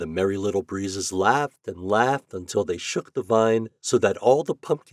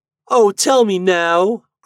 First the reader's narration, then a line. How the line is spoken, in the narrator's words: cried the little pumpkin